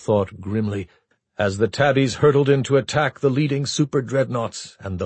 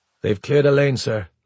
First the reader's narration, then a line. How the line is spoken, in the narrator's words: Lafroy said flatly